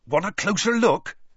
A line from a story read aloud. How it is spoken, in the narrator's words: Hagrid asked Madame Maxime excitedly